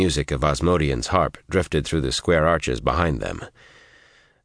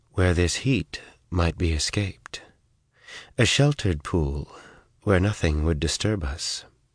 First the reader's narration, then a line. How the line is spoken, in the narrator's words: said softly